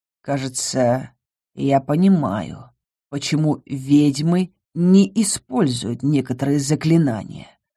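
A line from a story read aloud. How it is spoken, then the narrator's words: Growl. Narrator (Russian): прорычал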